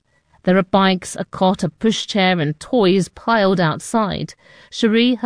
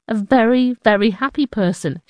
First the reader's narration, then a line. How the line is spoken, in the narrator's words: she says